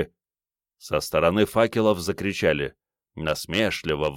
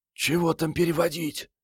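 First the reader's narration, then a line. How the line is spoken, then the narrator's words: Quiet girl's voice. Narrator (Russian): тихо сказала девчонка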